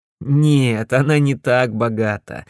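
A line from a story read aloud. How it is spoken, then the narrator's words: Laughing. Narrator (Russian): засмеялся я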